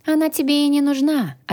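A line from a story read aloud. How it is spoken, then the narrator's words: Plain. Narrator (Russian): ответила Тиль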